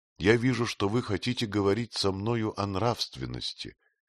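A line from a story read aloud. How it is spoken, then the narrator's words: Calm queen. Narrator (Russian): Королева Артруда спокойно сказала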